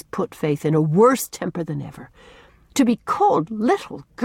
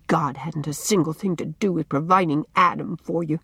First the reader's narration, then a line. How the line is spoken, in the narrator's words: muttered Faith rebelliously under her breath